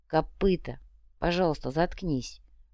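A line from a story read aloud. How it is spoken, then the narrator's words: Tired repetition. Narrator (Russian): Устало повторил Ваня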